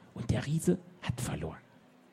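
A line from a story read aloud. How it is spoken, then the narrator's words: Witch hissing. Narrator (German): zischte die Hexe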